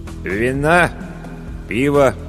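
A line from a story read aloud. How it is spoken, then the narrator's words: Dull inquiry. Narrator (Russian): уныло осведомился корчмарь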